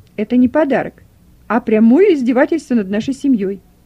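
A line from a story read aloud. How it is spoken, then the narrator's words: Loud indignant exclamation. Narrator (Russian): громко воскликнула хозяйка дома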